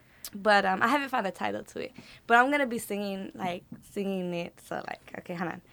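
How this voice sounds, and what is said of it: Slightly rough morning voice. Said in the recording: “my voice is a little off. I got that morning voice still.”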